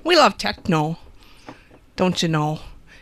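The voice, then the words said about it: Exaggerated Wisconsin accent. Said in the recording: “my Wisconsin accent”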